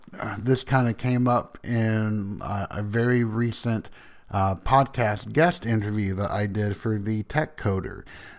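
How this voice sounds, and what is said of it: Strong Southern US accent. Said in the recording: “some of this is swallowed up by my accent. And so people that are not from the South, they listen to me. They're like, wow, you've got a really strong accent.”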